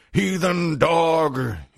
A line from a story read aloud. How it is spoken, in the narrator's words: he bellowed